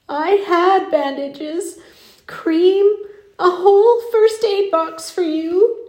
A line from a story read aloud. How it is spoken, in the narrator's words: sobbed